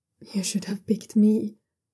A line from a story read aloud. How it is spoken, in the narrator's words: Ye Zun says quietly, bewildered tone